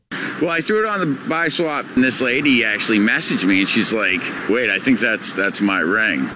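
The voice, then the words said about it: Maine accent. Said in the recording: “By the way, this is up in Maine. ... That's the accent.”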